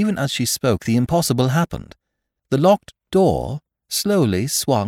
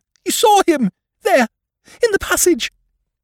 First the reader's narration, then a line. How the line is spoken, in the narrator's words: she cried